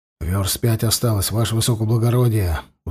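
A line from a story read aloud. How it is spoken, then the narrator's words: Tired breathless exhale. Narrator (Russian): устало выдохнул бегущий рядом Макарович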